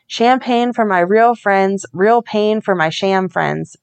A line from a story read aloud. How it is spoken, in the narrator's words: Brad said